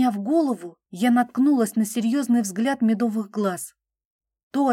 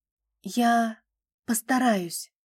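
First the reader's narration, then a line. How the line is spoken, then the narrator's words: Quiet. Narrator (Russian): тихо произнесла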